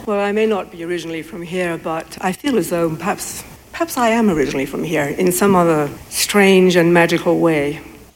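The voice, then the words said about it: Non-local accent. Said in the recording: “you all can't tell by my accent that I'm not originally from here”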